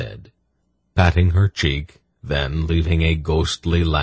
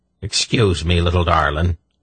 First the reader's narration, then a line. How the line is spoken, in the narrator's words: he said to Saenedra in an exaggerated brogue